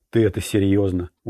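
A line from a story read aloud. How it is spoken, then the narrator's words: Tired question. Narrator (Russian): устало спросил Орландо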